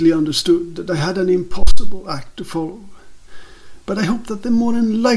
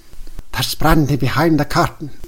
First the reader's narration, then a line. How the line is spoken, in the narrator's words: whispered the director